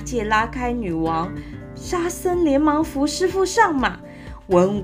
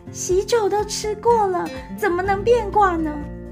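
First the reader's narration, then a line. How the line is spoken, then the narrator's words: Startled cry. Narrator (Chinese): 女王吓了一跳，叫道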